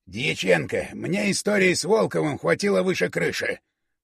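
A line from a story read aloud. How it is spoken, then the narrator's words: Hissing. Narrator (Russian): прошипел Большаков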